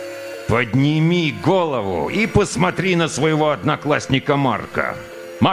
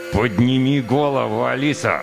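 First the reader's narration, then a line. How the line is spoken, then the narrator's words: Demanded through gritted teeth. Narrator (Russian): Сквозь зубы потребовал сержант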